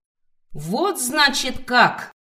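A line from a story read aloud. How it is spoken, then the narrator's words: Roaring young woman. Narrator (Russian): взревела девица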